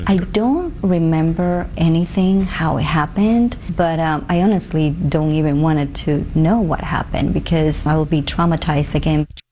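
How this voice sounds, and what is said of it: Odd foreign accent. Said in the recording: “She has an odd little accent there.”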